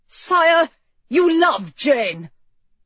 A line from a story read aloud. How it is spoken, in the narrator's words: She hadn't meant to blurt it out